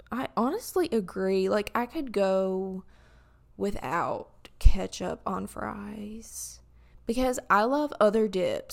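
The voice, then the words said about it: Cracking voice. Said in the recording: “sorry my voice is cracking”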